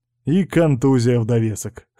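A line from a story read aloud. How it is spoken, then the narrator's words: Snort. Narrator (Russian): хмыкнул Кузьмин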